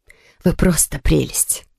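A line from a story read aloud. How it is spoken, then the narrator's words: Sighing. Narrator (Russian): вздохнула Мануэлла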